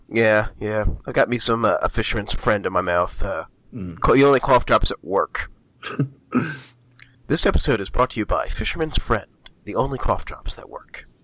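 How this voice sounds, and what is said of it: Sick, hoarse-sounding voice. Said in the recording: “I am infirm, as you can tell from my voice.”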